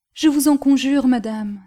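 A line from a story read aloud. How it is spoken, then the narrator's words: Fervent exclamation. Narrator (French): s'écria Lucie avec ferveur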